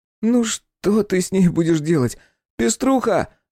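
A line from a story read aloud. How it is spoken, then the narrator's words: Loud call to dog. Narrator (Russian): громко позвал Мишка собаку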